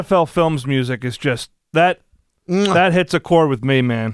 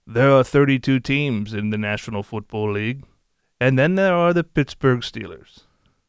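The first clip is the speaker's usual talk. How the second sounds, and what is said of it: John Facenda impression, NFL Films narrator. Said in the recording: “does a great John Facenda impression. An outstanding John Facenda impression.”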